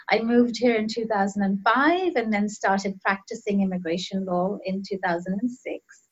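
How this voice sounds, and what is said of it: Foreign accent. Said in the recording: “I'm an immigrant myself. People could probably tell from my accent.”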